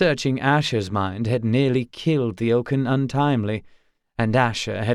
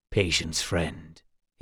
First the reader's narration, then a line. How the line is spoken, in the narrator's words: he murmured